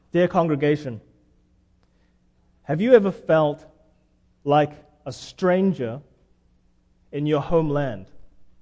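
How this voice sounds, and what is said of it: Noticeable foreign accent. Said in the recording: “People notice my accent. They know I'm not from around here.”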